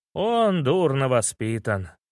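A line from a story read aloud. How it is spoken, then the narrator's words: Sigh. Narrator (Russian): вздохнул незваный гость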